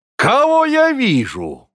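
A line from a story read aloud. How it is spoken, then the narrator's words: Exclaiming. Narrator (Russian): воскликнул он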